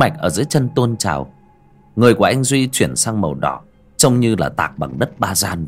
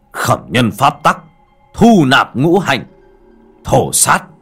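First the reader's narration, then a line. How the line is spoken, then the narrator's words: Loud roar. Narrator (Vietnamese): Anh Duy miệng gầm lớn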